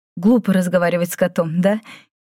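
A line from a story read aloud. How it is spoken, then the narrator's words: Giggling. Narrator (Russian): хихикнула Майми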